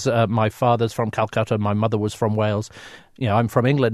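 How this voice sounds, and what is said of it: British accent. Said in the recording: “I'm a very proud Brit, as you can tell from my accent”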